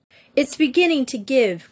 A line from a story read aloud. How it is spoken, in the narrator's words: cried Jean